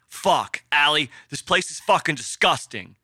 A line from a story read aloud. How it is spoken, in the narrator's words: yelled into the house